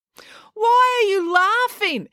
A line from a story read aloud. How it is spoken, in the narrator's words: April tried to yell over all the noise